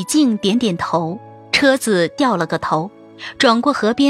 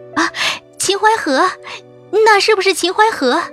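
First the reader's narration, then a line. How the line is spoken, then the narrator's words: Surprised exclamation. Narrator (Chinese): 忽然看到旁边水光滟滟，灯火摇曳，不禁大叫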